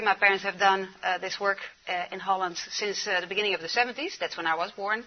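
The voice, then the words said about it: Dutch-accented English. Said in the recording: “We came from the Netherlands ... That's why I have an accent.”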